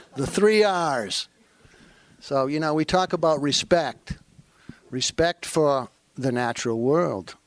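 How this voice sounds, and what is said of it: Maine accent, dropped R sounds. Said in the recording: “I have a Maine accent, so it's hard for me to say R”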